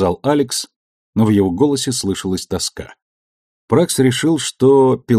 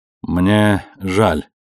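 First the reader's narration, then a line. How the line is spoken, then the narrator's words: Strained, forced out. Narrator (Russian): выдавил Пракс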